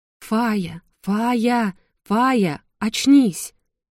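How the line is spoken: Anxious calling. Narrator (Russian): кто-то взволнованно звал меня по имени

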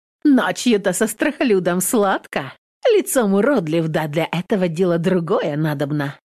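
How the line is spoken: Laughing loudly. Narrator (Russian): хохотала Домна

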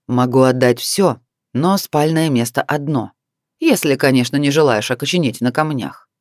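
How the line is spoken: Calm man's declaration. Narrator (Russian): спокойно заявил мужчина

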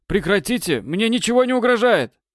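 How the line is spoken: Shouted from inside vehicle. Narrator (Russian): Выкрикнул он из салона

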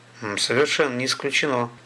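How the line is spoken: Calm. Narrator (Russian): спокойно сказал Столяров

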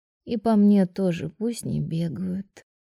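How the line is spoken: Sleepy mumble. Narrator (Russian): сонно пробормотала Тайра

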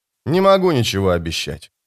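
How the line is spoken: Plain. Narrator (Russian): сказал он

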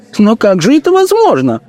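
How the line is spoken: Woman's exclamation. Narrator (Russian): воскликнула жена бургомистра

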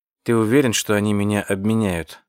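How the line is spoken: Plain. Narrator (Russian): спросил он

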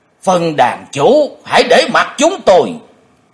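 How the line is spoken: Two old men shouting together. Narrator (Vietnamese): hai lão quái nhân đồng thanh quát lớn

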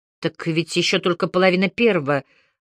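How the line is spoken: Mumbling. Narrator (Russian): промямлила я

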